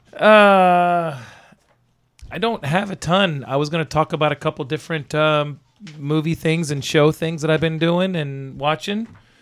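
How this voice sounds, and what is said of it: Hoarse, strained voice. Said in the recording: “As you can hear, I'm hoarse. I can barely talk.”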